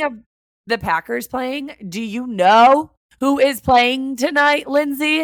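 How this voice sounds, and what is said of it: Usual voice. Nothing is said of it.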